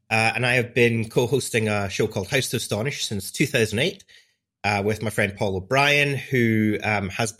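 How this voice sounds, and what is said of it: Scottish accent. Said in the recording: “I'm a podcaster from Scotland, as you can probably hear by my accent.”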